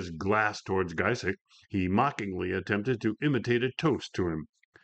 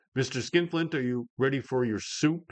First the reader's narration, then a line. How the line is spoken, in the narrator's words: she asked